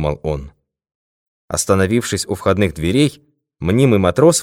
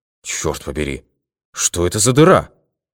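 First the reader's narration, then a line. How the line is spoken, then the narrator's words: Exclaimed. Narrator (Russian): воскликнул он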